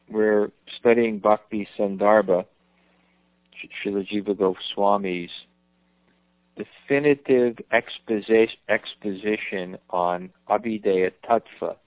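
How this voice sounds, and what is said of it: Strained, fading voice. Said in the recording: “I think I'm losing my voice.”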